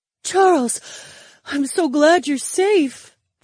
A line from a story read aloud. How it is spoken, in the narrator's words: the bear girl panted